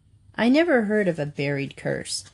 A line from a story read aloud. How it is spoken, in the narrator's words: said Louise